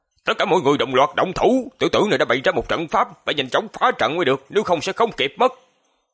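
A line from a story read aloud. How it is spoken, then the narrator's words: Old man's fierce shout. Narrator (Vietnamese): lão giả liền giữ tợn quát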